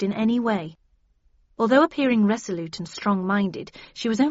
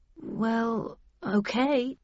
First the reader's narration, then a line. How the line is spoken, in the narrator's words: I muttered